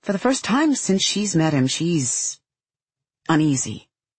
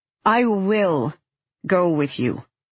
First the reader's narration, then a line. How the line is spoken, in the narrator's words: says firmly